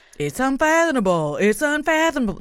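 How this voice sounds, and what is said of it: Imitates another person's voice. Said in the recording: “That's my Dr. Phil impression.”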